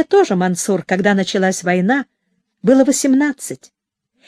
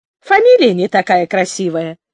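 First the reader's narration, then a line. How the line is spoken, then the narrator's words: Laughing again. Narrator (Russian): опять засмеялась Оля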